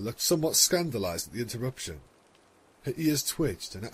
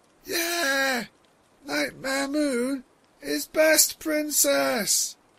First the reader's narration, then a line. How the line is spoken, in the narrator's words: An inebriated pony half yelled, half hiccuped